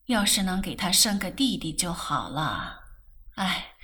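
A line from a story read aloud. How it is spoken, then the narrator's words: Sighing. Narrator (Chinese): 顾太太 又叹了口气，道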